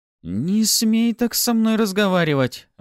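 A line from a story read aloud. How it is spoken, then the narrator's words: Exclaimed, by a new girl. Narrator (Russian): воскликнула новенькая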